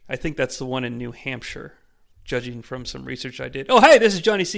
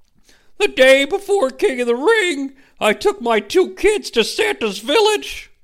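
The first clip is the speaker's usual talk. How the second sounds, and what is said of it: Imitates another person's voice. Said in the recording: “going to do a Mick Foley voice”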